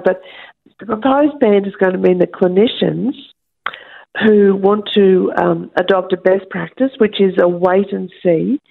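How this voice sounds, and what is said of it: Croaky, hoarse voice. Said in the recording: “my voice is sounding a little bit croaky ... I've got a little bit of a funny throat.”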